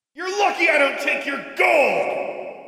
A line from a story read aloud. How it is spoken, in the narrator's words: She shouted after them